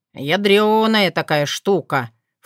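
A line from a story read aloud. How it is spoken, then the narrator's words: Snorting. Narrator (Russian): фыркнул Крамиш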